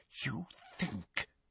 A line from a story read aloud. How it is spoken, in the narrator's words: she whispered